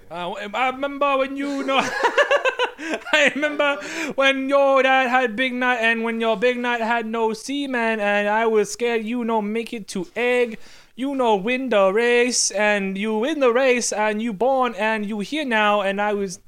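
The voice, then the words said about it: Exaggerated put-on ethnic accent. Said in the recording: “Your racial accent”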